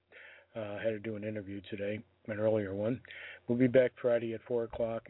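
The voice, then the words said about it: Strained, fading voice. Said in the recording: “I'm losing my voice. ... before I lose the rest of my voice.”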